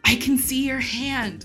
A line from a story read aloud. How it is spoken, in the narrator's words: Rey whispers